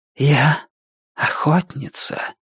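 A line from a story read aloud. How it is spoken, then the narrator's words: Haughty whisper. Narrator (Russian): высокомерно прошептала она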